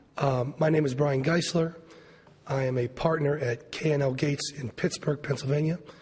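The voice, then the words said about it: Voice strained from illness. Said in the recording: “Forgive my voice. I've been a little under the weather.”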